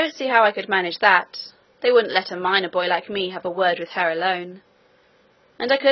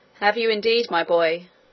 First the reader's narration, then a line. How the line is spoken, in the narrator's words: said Peter